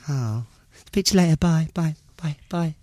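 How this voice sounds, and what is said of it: Cutesy lovey-dovey phone voice. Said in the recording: “Cutesy voice ... I don't actually speak like this ... doing my love voice ... It's a completely different voice”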